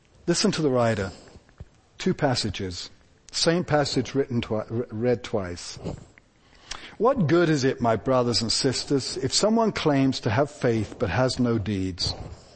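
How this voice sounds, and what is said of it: Speaks with a noticeable accent. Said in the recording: “put up with my accent”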